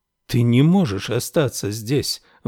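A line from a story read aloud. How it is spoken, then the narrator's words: Exclaiming. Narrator (Russian): воскликнула Феба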